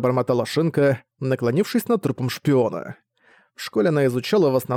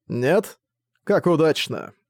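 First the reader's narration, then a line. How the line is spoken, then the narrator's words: Calm remark. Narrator (Russian): спокойно заметил Юки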